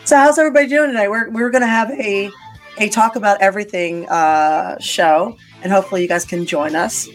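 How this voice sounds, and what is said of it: Hoarse, strained voice. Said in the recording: “losing my voice a little bit”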